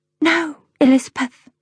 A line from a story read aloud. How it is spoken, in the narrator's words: I whisper